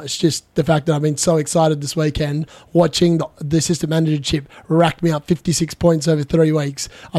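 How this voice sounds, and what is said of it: Unsteady, slightly sick-sounding voice. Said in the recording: “my voice sounds a little bit all over the place. It sounds like I'm getting sick”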